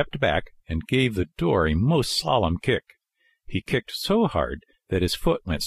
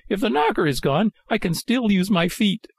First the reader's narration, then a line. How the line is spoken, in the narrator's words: cried Pinocchio, blind with rage